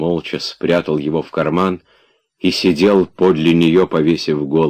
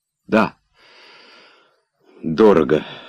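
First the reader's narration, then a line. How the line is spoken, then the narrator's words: Sighing. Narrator (Russian): вздохнув, сказала она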